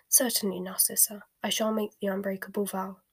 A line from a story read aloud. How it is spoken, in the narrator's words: he said quietly